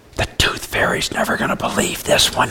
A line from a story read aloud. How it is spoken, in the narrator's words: she merely turned to me and whispered